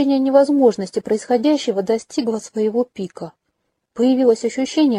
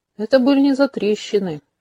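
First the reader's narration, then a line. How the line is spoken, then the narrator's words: Snorting grunt. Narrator (Russian): хмыкнул Ксиль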